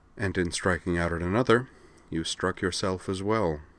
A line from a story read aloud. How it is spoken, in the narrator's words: he murmured